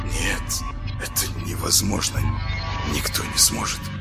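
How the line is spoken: Barely audible whisper. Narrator (Russian): прошептал он одними губами

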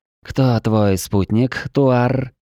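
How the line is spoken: Purring. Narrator (Russian): Промурлыкала зодчая

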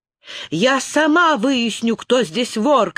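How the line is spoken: Shouted. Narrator (Russian): крикнула Лиана

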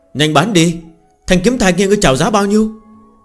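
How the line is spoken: Loud urging call. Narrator (Vietnamese): Có người cao giọng hô thúc giục

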